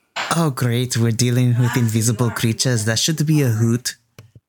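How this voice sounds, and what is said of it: Made-up put-on accent. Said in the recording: “Where is your accent from? ... I just decided it now. ... We're changing our accents.”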